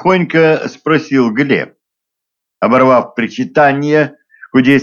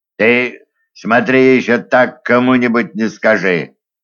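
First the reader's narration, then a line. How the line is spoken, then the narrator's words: Stern warning. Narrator (Russian): строго предупредил он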